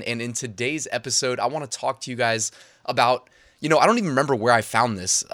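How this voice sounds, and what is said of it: Congested, slightly altered voice. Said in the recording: “I got a little bit of a sinus infection that I'm getting over, so my voice may sound a little different”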